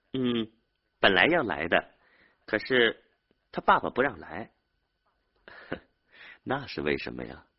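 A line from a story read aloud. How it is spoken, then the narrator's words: Smiling. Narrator (Chinese): 丽丽笑着 对他说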